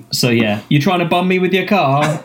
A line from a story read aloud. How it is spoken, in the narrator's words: he shouts to someone